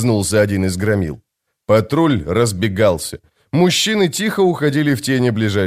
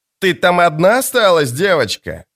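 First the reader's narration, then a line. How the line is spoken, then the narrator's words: Loud question. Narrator (Russian): громко спросил капитан Ганнип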